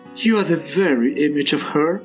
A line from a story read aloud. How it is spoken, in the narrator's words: she giggled